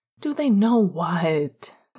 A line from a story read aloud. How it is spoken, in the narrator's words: Sirius groaned, trying to feign ignorance